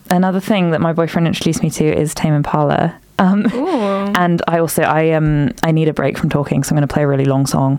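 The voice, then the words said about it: Unusually deep, congested voice. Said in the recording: “I'm very hay fevery. I'm talking really deep. You notice my voice is really deep today. ... hay fever.”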